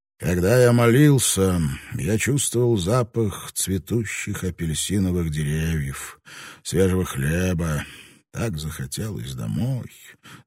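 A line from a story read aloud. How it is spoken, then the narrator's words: Sigh. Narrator (Russian): Сольди вздохнул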